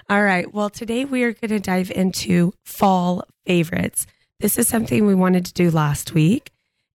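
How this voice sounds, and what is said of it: Deep, hoarse recovering voice. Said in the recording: “your voice was legit gone ... I have the man voice. I have the man voice today.”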